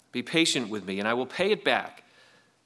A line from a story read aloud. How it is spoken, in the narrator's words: His fellow servant fell to his knees and begged him